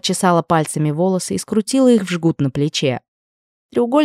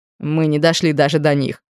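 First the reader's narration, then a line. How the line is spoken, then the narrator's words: Wry snort. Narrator (Russian): хмыкнул Брайан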